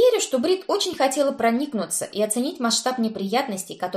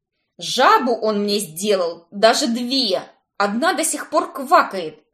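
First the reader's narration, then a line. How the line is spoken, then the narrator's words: Snapping retort. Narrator (Russian): огрызнулась я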